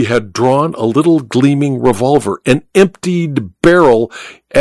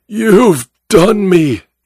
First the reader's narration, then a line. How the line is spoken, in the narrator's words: he cried